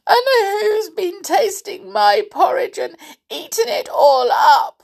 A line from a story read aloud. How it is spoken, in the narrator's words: squeaked Little Bear, crying